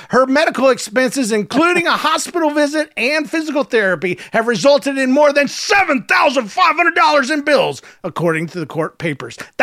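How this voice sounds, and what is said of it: Put-on Southern accent reading news. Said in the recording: “you go Southern with a Boston news report ... I can't do Boston, dude. All I got is my Southern roots”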